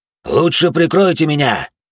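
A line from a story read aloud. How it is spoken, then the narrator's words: Shout. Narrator (Russian): крикнул отец Марк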